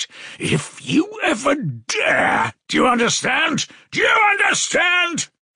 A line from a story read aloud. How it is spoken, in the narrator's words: he shouted